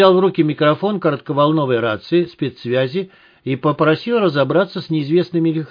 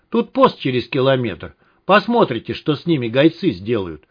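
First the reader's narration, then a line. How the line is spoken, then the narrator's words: Driver's short laugh. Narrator (Russian): хохотнул водитель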